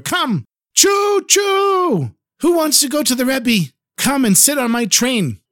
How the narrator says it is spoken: He shouted even louder

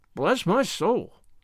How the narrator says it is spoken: exclaimed Mr

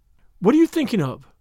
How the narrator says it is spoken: said Jane sharply

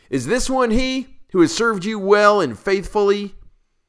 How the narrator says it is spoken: we cried out

